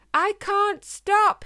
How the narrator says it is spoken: yelled

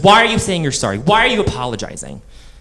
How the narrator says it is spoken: he snapped

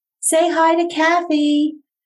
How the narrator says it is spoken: her face lit up and Pam shouted

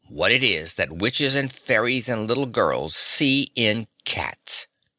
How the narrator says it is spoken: he growled

